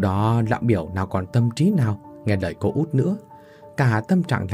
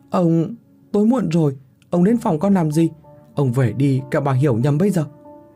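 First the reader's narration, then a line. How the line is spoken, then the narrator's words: Exclaim. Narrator (Vietnamese): cô mới kêu lên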